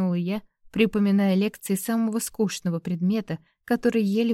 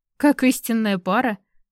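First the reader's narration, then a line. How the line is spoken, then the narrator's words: Chuckled. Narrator (Russian): хохотнул Дерек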